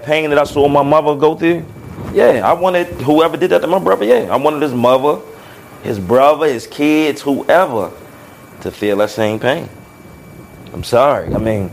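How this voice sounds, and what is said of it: Emotional, choked-up voice. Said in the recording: “I'm getting emotional talking about.”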